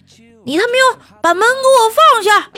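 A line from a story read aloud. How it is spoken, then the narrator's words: Shouting. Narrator (Chinese): 服务员在我后面跟着喊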